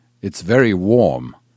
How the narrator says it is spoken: announced loudly

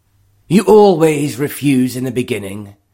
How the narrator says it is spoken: John had replied with the air of sneering assurance that was common with him

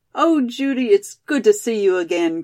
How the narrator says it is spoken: cried Molly

